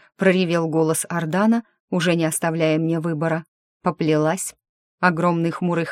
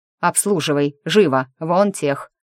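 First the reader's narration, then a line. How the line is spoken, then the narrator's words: Barked. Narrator (Russian): рявкнул Ардан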